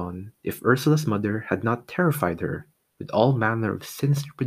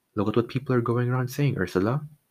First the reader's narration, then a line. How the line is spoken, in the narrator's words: he told his wife very calmly